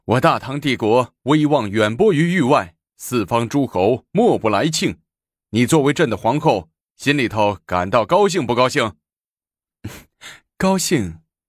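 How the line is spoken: Hearty laughter. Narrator (Chinese): 高宗李治哈哈大笑，对武则天说

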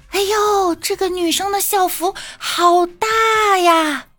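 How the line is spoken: Mocking shout. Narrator (Chinese): 男生说，一边喊着

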